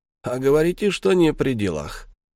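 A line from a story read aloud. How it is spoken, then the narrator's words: Snorting. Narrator (Russian): хмыкнул и сказал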